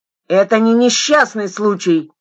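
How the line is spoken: Shouted. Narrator (Russian): крикнула Аня

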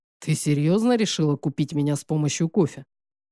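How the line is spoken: Snorting. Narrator (Russian): хмыкнул Белорадов

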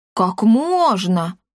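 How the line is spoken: Cat exclaiming. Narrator (Russian): воскликнул кот

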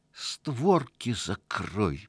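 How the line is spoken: Quiet squeal. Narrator (Russian): Тихонько взвизгнул домовичок

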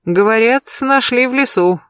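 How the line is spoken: Laughing. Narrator (Russian): засмеялся Берсеньев

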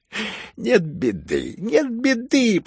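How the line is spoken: Glad, chiming in. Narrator (Russian): подхватил Фердыщенко, поспешно подходя и обрадовавшись, что начали смеяться

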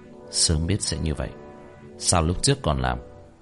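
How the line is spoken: Muttering. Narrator (Vietnamese): lẩm bẩm

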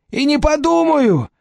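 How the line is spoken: Shout. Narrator (Russian): крикнул Денис

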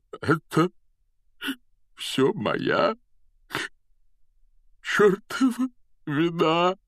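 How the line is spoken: Choked out through tears. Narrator (Russian): выдавил он сквозь слезы

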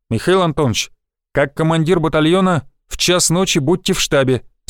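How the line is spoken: Plain. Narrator (Russian): сказал командир дивизии

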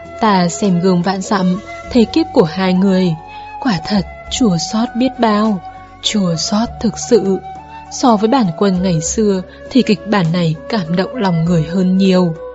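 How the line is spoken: Sighing. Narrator (Vietnamese): Lan Xuyên thở dài bảo

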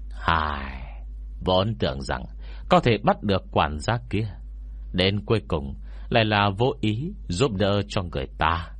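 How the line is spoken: Old man sighing. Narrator (Vietnamese): Ông già hiềm thấy thở dài một hơi, rồi nói với Ngô Miễn

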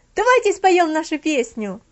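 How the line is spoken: Shouted. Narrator (Russian): находился один, который кричал

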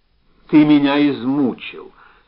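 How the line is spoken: Plain. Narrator (Russian): сказала Зося

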